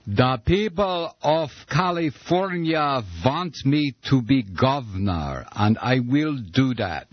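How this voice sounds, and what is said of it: Failed Arnold Schwarzenegger impression, sounds like Boris Karloff. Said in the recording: “doing a decent Arnold Schwarzenegger impersonation ... Still Boris Karloff.”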